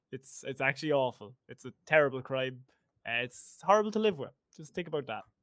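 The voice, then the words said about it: Irish accent. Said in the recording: “I'm talking to an Irish person right now ... I hope anyone listening to this understood my accent. ... This is just how I sound every day.”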